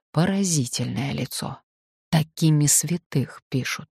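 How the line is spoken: Quiet speech. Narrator (Russian): Он тихонько сказал

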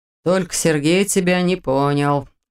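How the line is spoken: Snorting. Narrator (Russian): хмыкнул Дементьев

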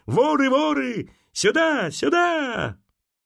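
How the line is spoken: Shouting at top of lungs. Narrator (Russian): Саша закричал во все горло

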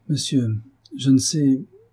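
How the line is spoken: Young woman stammering. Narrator (French): répondit la jeune femme en balbutiant

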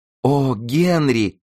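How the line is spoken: Exclamation. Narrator (Russian): воскликнула Деннис

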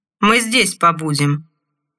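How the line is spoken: Snapping guard. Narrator (Russian): огрызнулся один из охранников

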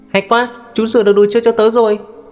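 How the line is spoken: Child shouting excitedly. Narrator (Vietnamese): một cậu bé hét to

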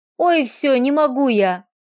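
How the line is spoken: Moaning. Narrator (Russian): простонала Варя

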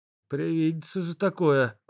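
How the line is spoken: Muttering. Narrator (Russian): пробормотал

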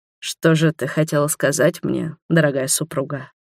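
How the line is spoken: Hoarse. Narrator (Russian): хрипло проговорил Роберт

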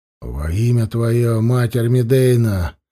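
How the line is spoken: Gloomy. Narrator (Russian): мрачно сказал Власка

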